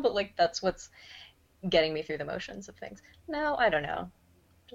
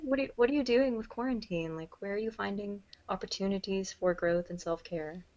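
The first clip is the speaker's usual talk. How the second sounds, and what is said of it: Put-on smooth podcast host voice. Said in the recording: “here's my cool podcast voice”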